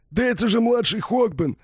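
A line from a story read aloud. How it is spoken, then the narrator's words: Howling. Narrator (Russian): взвыл кто-то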